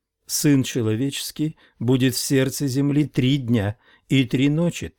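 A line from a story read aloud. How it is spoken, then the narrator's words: Plain. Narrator (Russian): так сказал он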